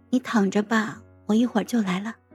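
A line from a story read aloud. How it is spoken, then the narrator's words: Soft, tender. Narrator (Chinese): 柔声的说道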